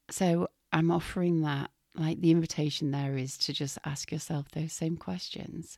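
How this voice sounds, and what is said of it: Strained, recovering voice. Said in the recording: “Excuse me, my voice is still recovering.”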